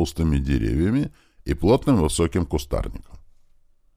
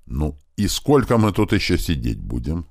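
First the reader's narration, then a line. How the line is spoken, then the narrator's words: Angry question. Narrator (Russian): зло спросил Страйк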